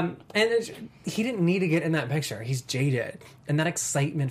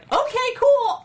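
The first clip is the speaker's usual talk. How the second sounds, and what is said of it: Imitates a cartoon character's voice. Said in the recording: “my Kid Flash impression”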